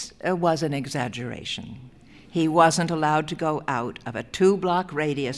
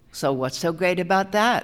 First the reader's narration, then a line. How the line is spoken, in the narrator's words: Howard White said